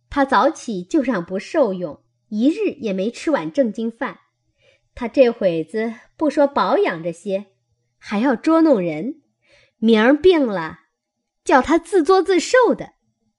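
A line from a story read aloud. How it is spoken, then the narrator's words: Laughing. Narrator (Chinese): 笑道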